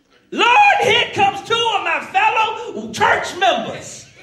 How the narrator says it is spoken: Mother Brown began to shout

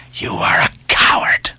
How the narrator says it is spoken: hissed the lakeman

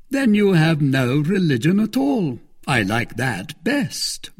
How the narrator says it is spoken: replied Lord de Winter, laughing

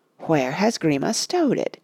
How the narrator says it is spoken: he muttered under his breath

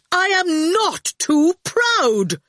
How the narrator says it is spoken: Torquil cried, springing up indignantly

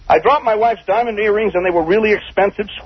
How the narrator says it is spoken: screamed Rob Lowe

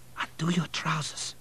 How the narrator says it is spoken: whispered

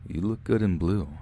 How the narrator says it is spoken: said

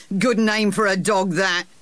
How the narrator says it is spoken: said Sir Harry with a laugh

